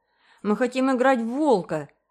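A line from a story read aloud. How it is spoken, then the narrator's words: Two voices shouting together. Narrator (Russian): закричали оба в один голос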